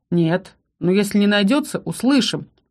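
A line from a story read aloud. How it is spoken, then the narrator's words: Knowing snort. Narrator (Russian): хмыкнул Ролл, который явно понял, о ком или о чем речь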